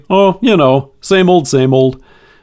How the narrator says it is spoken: with a yawn or a sigh, we might say

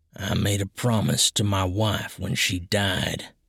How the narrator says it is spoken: Hollis said in a low voice

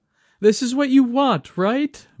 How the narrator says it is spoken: Mai pleaded

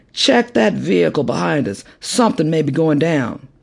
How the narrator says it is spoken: called out

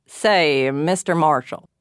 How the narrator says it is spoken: growled the glum-faced man

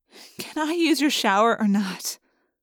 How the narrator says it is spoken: sighed, no longer giggling

